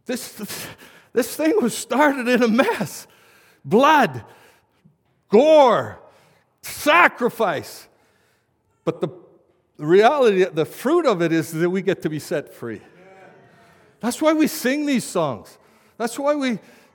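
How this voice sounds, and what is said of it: Shouting preacher. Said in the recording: “I'm shouting ... Why are you shouting?”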